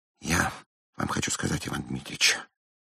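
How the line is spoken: Whispered. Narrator (Russian): шепнул он

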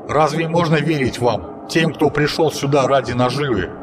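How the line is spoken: Plain. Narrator (Russian): ответил Токанин

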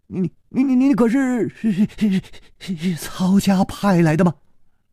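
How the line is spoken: Trembling young voice. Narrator (Chinese): 那个少年颤声说

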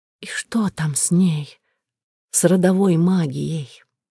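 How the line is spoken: Hoarse whisper. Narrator (Russian): я хрипло прошептала

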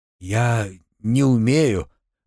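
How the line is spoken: Forced out reluctantly. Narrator (Russian): выдавил из себя Артем

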